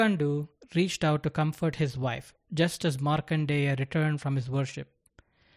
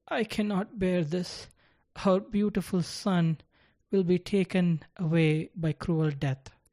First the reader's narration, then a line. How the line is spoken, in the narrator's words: After a moment's silence, she sobbed